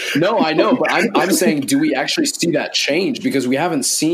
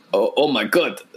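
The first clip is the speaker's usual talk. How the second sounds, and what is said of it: Poorly done put-on accent. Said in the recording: “Like that was the worst an accent.”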